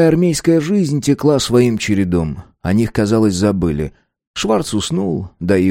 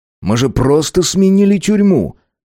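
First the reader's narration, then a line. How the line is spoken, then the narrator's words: Impatient exclamation. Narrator (Russian): Авардан начал терять терпение и воскликнул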